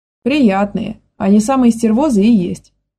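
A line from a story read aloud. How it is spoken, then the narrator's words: Exclaimed. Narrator (Russian): воскликнул Леха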